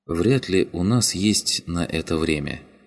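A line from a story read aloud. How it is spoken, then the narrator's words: Soft speech. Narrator (Russian): мягко произнесла Го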